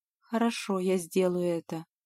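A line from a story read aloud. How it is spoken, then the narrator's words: Dejected voice. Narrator (Russian): упавшим голосом произнесла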